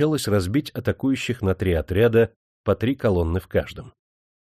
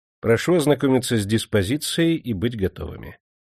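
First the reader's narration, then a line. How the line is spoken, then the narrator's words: Calm. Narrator (Russian): спокойно сказал Суворов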